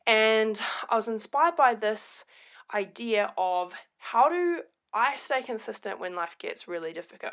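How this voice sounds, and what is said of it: Voice hoarse from illness. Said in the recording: “You might hear it in my voice, recovering from the flu.”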